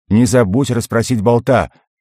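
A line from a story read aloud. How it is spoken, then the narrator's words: Shouted after someone. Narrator (Russian): крикнул мне вдогонку Фор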